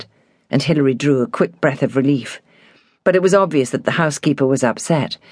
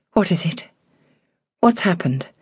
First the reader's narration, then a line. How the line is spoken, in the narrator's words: said quietly